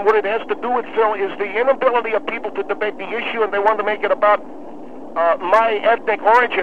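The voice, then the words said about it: Speaks with a noticeable accent. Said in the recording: “it has to do with your accent”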